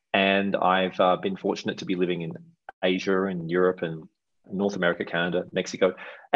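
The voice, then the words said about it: Mild Australian accent. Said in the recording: “maybe you can tell I have a bit of an accent. I'm from Australia.”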